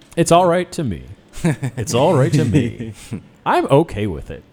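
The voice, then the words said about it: Put-on, half-positive, mocking voice. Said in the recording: “doing this voice. It's somewhat positive, somewhat mocking.”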